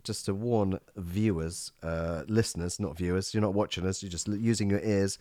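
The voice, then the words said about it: Slightly croaky voice. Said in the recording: “I have a slightly tickly throat ... I'm going to sound a little bit more croaky than normal.”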